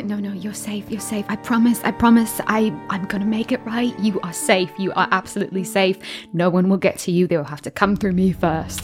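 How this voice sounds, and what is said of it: Whispering. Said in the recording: “I'm whispering,”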